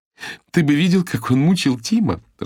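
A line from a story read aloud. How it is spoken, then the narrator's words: Laughing. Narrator (Russian): рассмеялась Ирис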